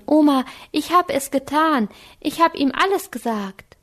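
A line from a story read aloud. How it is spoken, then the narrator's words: Calling out. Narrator (German): rief Anke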